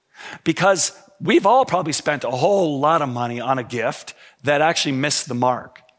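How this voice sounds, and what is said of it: Hoarse, strained voice. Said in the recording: “I have to apologize for my voice. I was singing Christmas carols way too loud on Friday night, and so I'm kind of losing my voice a little bit.”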